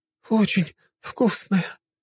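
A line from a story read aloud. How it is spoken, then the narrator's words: Sobbing woman. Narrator (Russian): разрыдалась одна женщина, которая часто страдала от дизентерии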